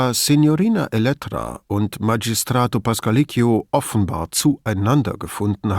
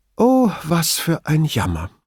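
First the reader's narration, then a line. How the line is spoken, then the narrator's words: Restrained, dignified sigh. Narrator (German): seufzte Signorina Elettra, als sei es unter ihrer Würde, bei einem Sieg über so schwache Gegenspieler in Jubel auszubrechen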